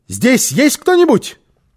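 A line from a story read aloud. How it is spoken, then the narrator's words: Shout. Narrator (Russian): крикнула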